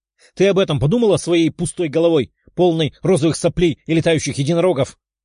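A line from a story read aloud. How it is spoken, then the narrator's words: Emotional shouting. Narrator (Russian): Эмоционально прокричала Лиза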